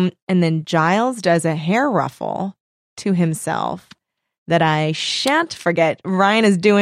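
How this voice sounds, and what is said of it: Usual voice. Nothing is said of it.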